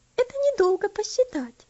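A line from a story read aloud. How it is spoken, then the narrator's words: Cheerful laughter. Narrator (Russian): Весело засмеялась Элси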